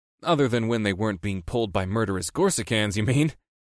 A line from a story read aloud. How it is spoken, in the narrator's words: I chuckled